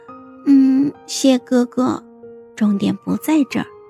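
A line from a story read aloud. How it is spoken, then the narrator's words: Pouting quiet mutter. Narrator (Chinese): 孟婉婉撅嘴，小声的嘀咕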